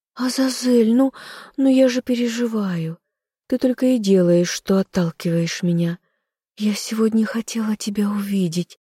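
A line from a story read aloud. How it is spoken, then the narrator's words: Timid secretive whisper. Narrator (Russian): робко зашептала она, словно рассказывая самую большую тайну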